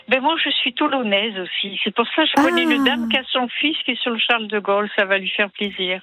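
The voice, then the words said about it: Slight southern French accent. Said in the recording (French): “vous avez un petit accent du sud”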